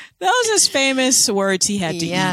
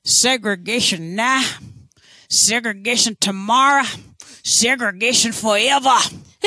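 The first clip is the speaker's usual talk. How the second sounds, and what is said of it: Imitated politician's accent. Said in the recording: “my famous... Terrible George Wallace... Accent... you are so good at that”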